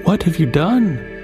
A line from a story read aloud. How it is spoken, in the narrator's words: cried the princess